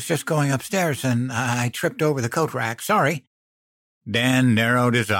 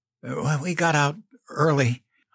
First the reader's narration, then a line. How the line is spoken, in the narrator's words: I stammered